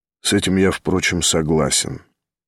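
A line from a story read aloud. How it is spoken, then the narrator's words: Frowning mutter. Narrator (Russian): нахмуренно пробормотал Ставрогин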